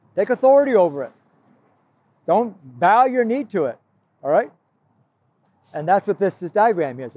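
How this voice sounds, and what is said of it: Yelling, loud voice. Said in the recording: “sorry I'm yelling. I mean, I might be kind of louder because it's so noisy out here.”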